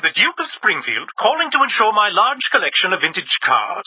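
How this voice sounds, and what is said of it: Fake aristocratic accent. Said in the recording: “the fake accent”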